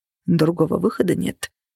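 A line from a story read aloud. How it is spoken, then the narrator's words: Muttering. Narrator (Russian): пробормотал Влад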